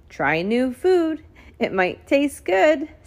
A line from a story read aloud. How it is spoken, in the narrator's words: said Daniel and Miss Elaina, giggling